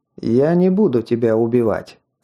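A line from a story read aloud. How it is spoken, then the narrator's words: Calm. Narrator (Russian): спокойно произнес Скелл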